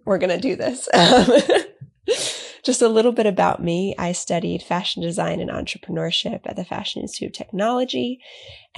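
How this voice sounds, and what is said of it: Congested, stuffed-up, rough voice. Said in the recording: “I'm a little sick today ... I sound stuffed up and a little bit like an old man”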